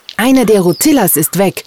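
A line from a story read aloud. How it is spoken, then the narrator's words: Angry scream. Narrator (German): schrie sie wütend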